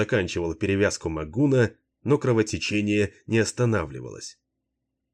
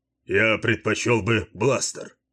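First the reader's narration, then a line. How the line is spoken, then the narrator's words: Grumbling. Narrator (Russian): проворчал Баллард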